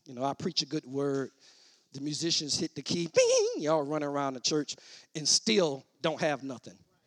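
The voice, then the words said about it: Televangelist-style preaching voice. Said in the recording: “he sound like a television evangelist”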